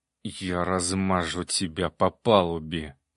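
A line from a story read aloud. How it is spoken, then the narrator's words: Through gritted teeth. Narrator (Russian): процедил Баритинский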